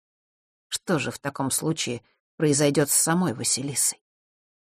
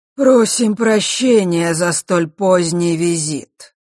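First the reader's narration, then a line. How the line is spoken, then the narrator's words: Harsh guttural spirit voice. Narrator (Russian): резким гортанным голосом произнес дух Осталы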